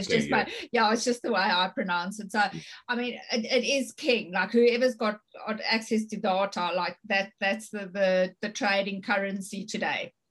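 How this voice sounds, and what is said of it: Afrikaans-influenced English accent. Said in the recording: “I say data, but it's my accent. ... I go English and Afrikaans.”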